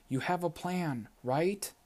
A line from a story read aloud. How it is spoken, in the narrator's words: she said again, almost pleading